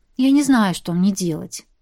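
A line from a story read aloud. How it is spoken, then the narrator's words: Sighing. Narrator (Russian): вздохнула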